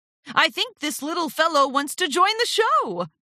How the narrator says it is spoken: shouted Flim

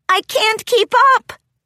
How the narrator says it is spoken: Glitterdrops called out

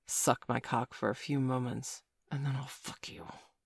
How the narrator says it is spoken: he whispered

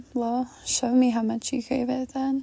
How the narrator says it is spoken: I chuckled and I told him

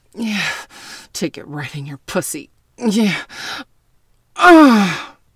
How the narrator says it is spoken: The jock moaned loudly

